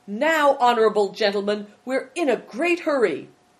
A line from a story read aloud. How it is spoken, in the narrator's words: cried